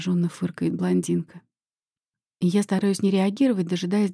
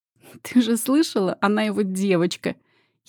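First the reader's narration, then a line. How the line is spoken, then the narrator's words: Giggling. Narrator (Russian): хихикает Лина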